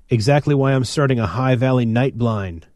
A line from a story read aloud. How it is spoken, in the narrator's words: Phil snapped, tired of Armat's needling